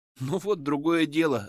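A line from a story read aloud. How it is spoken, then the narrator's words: Laughing. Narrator (Russian): рассмеялся я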